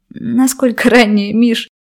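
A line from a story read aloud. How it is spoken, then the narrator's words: Laughing. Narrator (Russian): Смеялась я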